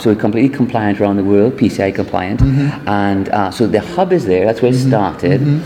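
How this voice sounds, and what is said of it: Trinidadian accent. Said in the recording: “Trinidad and Tobago is our second home, and that's where I'm from. ... You can hear with the accent.”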